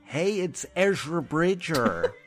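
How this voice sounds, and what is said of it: Imitates a Californian-accented character voice. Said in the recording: “He's stuck in a Californian accent. ... You nailed it. ... Spot on.”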